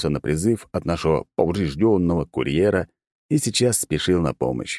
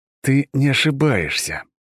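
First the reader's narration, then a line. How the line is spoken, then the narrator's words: Through gritted teeth. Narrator (Russian): процедил я сквозь зубы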